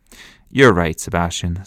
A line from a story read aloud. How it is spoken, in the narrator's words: said Fran